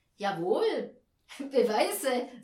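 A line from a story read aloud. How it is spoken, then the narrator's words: Laughing. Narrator (German): sagte jemand anders lachend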